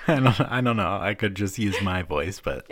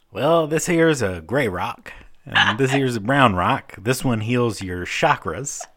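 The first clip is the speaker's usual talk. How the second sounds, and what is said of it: Put-on weird manly character voice. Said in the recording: “Why do we have to do such a weird voice for men? ... You're like, Hank Hill. ... I'm kind of like Hank Hill, George W. Bush.”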